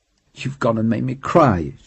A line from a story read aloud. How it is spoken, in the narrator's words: whimpered in self-contempt